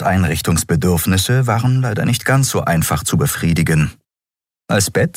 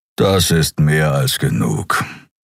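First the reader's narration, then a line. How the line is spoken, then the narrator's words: Growl. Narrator (German): knurrte er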